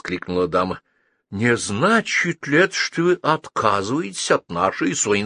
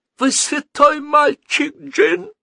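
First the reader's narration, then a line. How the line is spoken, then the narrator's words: Old woman near sobbing. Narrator (Russian): на грани рыдания промолвила старушка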